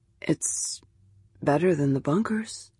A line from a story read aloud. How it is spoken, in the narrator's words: said softly, his tone more hopeful than certain